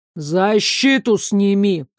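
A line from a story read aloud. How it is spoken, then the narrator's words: Growled. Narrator (Russian): рыкнул огненное величество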